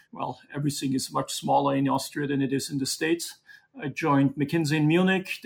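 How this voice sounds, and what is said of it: Austrian-accented English. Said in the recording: “As you can tell from my accent, I didn't grow up in Brooklyn, but I grew up in the mountains in Austria”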